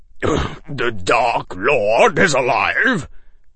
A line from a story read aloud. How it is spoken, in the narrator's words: He choked